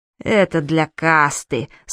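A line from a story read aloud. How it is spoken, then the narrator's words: Through gritted teeth. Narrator (Russian): сквозь зубы объяснил Гест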